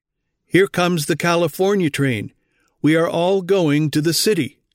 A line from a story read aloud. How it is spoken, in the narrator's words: Elder White exclaimed